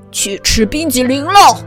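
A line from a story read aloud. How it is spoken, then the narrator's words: Shouting. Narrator (Chinese): 外公大喊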